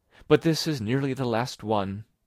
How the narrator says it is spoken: she would add, with a sigh

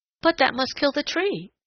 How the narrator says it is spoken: exclaimed Peter Rabbit

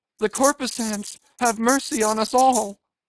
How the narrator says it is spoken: immediately shifting his tone, he cried

